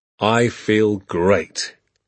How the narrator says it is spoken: he said

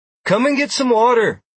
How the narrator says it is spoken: Galmine cheerfully chirped from midway down the ramp

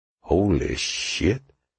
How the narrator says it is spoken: Carlin muttered at her side

